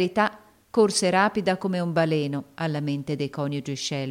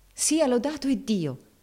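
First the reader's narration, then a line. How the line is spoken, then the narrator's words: Exclaimed. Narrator (Italian): esclamò la signora Shelby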